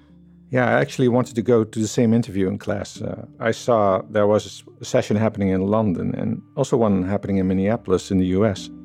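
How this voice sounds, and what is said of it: Dutch accent in English. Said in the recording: “I'm Dutch, by the way, just in case you haven't heard already from my accent.”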